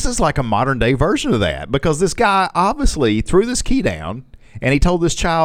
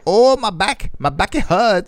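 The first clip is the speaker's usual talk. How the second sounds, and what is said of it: Put-on foreign-sounding accent. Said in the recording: “Why does he talk like that? ... That's a Shimolan accent.”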